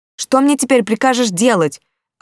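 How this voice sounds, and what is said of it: Shouting angrily. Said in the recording (Russian): “орала ... не кричите вы так!”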